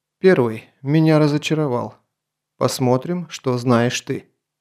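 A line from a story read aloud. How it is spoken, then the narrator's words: Very calm tone. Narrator (Russian): Грон очень спокойным тоном произнес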